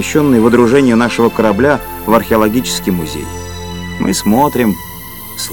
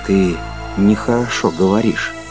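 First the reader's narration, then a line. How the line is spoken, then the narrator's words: Quiet. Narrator (Russian): сказал Кондратьев тихо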